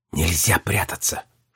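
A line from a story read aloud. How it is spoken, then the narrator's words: Silent mouthed whisper. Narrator (Russian): шепнула она одними губами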